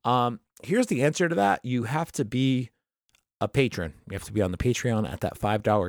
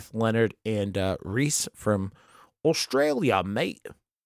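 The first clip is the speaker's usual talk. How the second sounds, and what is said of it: Put-on Australian accent. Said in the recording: “I did an Australian accent.”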